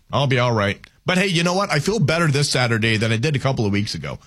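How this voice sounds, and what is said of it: Slightly scratchy, sore-throat voice. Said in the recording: “what's wrong with my voice? ... I've got a little bit of a sore throat. ... my voice is a little scratchy”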